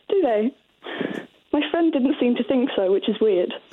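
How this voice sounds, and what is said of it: Fairly good put-on London accent. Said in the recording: “that is quite a good London accent.”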